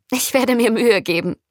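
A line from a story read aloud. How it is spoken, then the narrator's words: Laughing. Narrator (German): sagte Anna lachend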